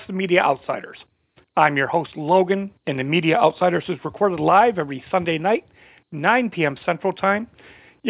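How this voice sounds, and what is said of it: Hoarse voice. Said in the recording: “losing my voice here. Do I sound a little hoarse”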